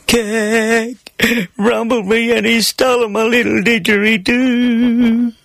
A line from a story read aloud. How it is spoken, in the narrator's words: Between my sobs, I managed to weep